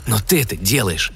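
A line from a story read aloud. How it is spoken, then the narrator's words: Whispered. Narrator (Russian): прошептал Сэм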